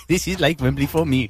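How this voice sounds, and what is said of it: Put-on Welsh accent. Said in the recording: “Great Welsh accent there”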